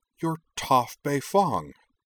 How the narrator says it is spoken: she blurted

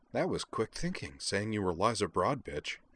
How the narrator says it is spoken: Azalin said softly

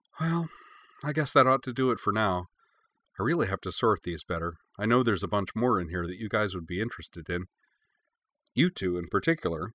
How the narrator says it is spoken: She gave a nostalgic sigh and said

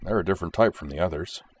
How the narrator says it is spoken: he murmured

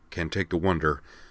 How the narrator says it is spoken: Corwin muttered to himself

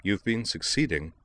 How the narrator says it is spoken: Dorothy told him calmly

